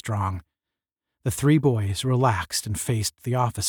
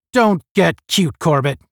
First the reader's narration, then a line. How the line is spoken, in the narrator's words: barked Strong